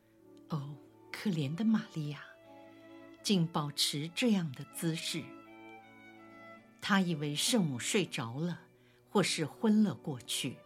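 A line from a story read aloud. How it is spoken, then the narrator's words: Soft, quiet. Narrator (Chinese): 他轻声地说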